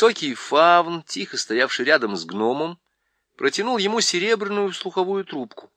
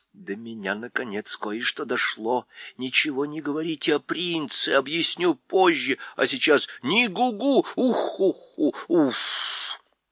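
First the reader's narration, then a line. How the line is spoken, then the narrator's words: Whispered. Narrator (Russian): Сова прошептала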